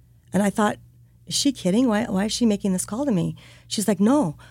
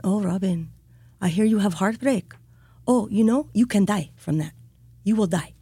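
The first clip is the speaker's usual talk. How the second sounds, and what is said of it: Put-on Russian accent. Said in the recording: “in her Russian accent”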